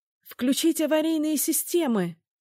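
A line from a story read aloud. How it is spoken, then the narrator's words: Shouting over rising howl. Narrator (Russian): закричала она, стараясь перекричать нарастающий вой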